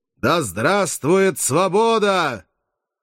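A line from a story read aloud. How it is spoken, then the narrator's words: Ringing, powerful shout. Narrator (Russian): прокричал звучным сильным голосом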